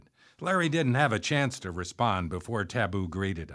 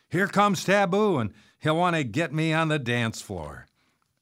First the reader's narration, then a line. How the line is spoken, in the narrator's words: Larry shouted over the noise of the crowd